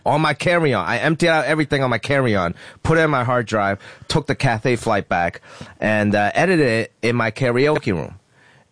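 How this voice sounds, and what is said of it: Slightly rough, hoarse voice. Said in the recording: “my voice is a little rough. I was singing karaoke last night.”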